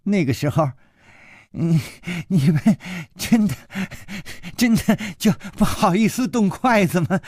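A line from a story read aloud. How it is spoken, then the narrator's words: Laughing while eating. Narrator (Chinese): 他一边吃一边笑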